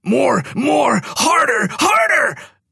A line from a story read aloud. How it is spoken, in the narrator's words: she kept screaming out